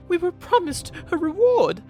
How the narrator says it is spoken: she gasped

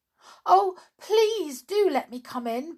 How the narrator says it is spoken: begged the fairy doll in a fright

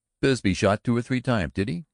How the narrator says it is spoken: he cried

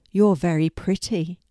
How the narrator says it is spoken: said Larry

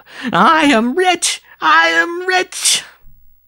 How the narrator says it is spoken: he burst into a shriek of wild laughter, as he yelled

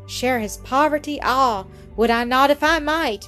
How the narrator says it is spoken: Mildred cried half aloud and with a burst of tears

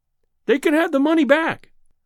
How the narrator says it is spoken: I cried

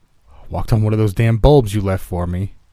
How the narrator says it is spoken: he grunted

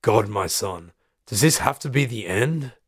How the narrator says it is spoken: He sighs

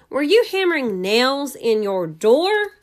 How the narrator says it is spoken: yelled

